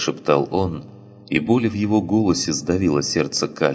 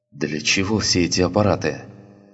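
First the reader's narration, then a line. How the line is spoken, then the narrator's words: Trembling voice. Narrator (Russian): спросил он дрожащим голосом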